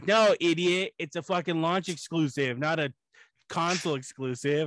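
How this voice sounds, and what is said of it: Imitated Canadian accent, imperfect. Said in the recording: “He said it with a little bit more of a Canadian accent ... I will get the Canadian thing down soon.”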